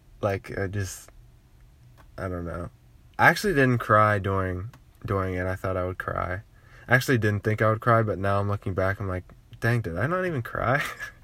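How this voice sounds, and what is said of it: Cracky voice from being sick. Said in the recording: “especially since I'm sick, my voice is going to be, like, really cracky”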